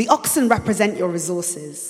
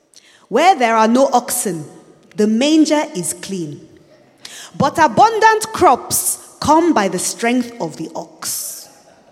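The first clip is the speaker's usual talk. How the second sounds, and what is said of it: Put-on accent reading a proverb. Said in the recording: “Let me say it with an accent.”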